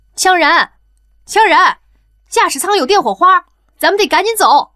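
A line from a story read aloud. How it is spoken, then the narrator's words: Calling out repeatedly. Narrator (Chinese): 嘴里不断叫着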